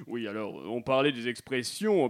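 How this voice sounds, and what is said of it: Put-on Québécois French accent. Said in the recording (French): “accent québécois aimerait réagir à vos propos”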